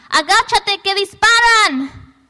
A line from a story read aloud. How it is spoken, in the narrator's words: yelled